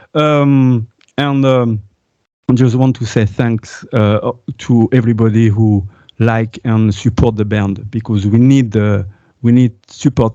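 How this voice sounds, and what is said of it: French accent in English. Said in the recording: “Sorry about my accent and stuff like that. You know, I'm French.”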